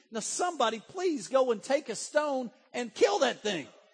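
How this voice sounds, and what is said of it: Strained, fiery Baptist preaching voice. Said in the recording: “I'm about to lose my voice. I'm really sounding Baptist today. ... If I can just preach on hellfire and brimstone”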